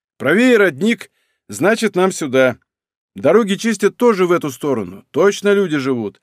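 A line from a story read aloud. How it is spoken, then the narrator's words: Chuckling. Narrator (Russian): он хохотнул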